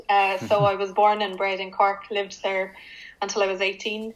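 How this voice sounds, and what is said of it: Cork Irish accent. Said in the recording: “anyone from Cork would tell you I'm from Cork because of my accent”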